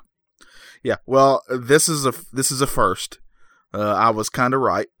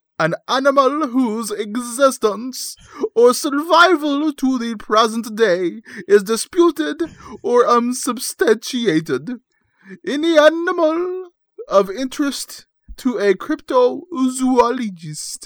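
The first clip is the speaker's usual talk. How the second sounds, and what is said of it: Put-on English accent, Sherlock Holmes voice. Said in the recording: “You have to do it with an English accent. ... Your best Sherlock Holmes voice.”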